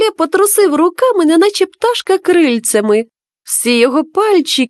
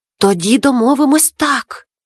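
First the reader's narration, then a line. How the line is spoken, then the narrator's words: Whisper. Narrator (Ukrainian): зашепотів Макуле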